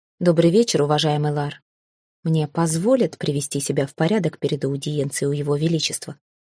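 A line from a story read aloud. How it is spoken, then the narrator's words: Calm but insistent question. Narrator (Russian): Спокойно, но с нажимом спросила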